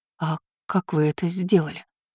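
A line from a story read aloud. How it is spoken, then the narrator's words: Barely audible mutter. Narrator (Russian): Еле слышно пробормотала она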